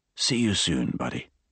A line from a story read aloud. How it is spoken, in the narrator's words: Armand whispered to the tired child